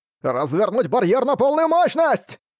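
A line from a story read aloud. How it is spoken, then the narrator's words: Shouted command. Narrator (Russian): прокричал раздающий приказы солдат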